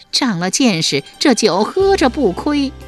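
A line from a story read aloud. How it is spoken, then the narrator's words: Group laughing. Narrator (Chinese): 树雕四人听了大笑连道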